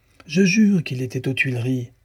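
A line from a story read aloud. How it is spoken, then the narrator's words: Exclaiming. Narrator (French): s'écria Dussardier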